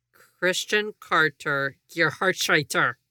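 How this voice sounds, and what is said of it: Bad put-on German accent. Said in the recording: “with my accent, with my bad German? I did the best I could.”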